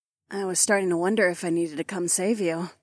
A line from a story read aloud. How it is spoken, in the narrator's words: Taslin purred